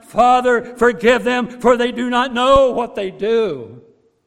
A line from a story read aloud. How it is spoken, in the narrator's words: He cries out